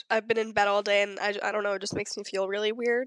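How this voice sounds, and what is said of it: Sick-sounding voice. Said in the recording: “I'm sick ... sorry for my voice”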